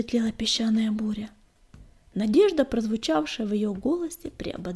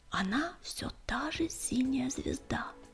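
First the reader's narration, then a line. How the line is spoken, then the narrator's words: Confiding whisper. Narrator (Russian): доверительно шепнул он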